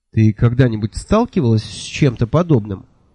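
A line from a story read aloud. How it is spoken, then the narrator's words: Plain question. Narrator (Russian): спросил я Миламари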